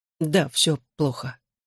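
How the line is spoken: Quiet admission. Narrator (Russian): Тихо признался Гипси

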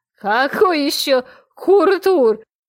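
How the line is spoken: Laughing, stumbling over word. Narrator (Russian): засмеялась я, не в силах выговорить тарабарское слово

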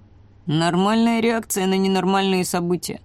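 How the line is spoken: Sighing. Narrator (Russian): вздохнул ворон

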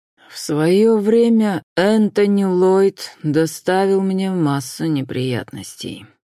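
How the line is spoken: Through gritted teeth. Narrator (Russian): процедил Уильям Присли

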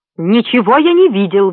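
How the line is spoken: Indignant. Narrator (Russian): возмущенно произнес Магнан

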